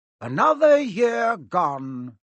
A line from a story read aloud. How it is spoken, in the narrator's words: Dumbledore said cheerfully